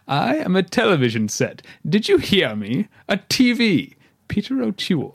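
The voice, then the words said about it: Overdone British accent. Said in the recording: “a really ridiculous, ridiculously overdone British accent”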